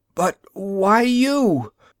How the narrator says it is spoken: Gasping in the escaping air, strangling

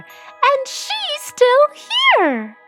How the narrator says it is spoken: squeaked the baby bear

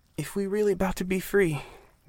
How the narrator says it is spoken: Miss Maddie began in a shaky voice

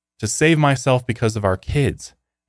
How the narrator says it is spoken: Mayumi cried

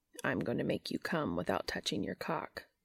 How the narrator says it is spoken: growled Cass

